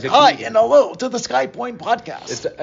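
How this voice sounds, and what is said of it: Mocking imitation of host's podcast voice. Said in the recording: “Are you making fun of my voice? ... That was a pretty poor impression.”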